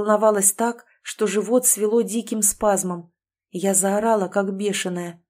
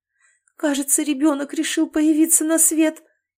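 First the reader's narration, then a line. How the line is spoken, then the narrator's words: Frightened. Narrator (Russian): Испуганно произнесла я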